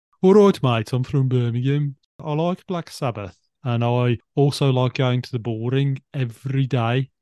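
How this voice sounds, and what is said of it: Strong exaggerated put-on Brummie accent. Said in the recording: “Maybe I exaggerate it a little bit too much ... So my Brummie accent, I'm going to do it. ... That's very good. Sounds good to me. People said you sounded, it's too strong, that your version.”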